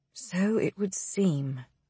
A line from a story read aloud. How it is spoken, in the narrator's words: Brightwell whispers